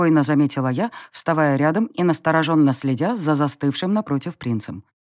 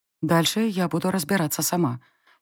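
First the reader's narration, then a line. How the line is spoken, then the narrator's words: Quiet whisper. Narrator (Russian): тихо шепнула я оборотню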